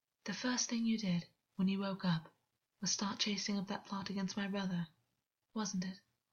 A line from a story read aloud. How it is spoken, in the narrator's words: August whispered against his mouth